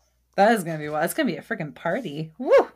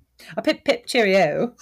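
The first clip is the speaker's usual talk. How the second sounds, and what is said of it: Put-on English accent. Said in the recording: “You want us to do an English accent all episode? ... I think an English accent's okay.”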